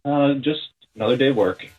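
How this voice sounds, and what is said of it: Flat, unenthusiastic voice. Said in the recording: “you sound thrilled.”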